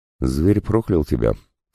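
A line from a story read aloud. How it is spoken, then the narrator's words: Calm. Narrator (Russian): спокойно ответила Агния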